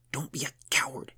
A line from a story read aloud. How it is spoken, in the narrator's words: he hissed, trying to keep his voice low